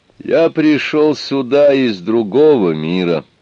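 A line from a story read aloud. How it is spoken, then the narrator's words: Plain. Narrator (Russian): сказал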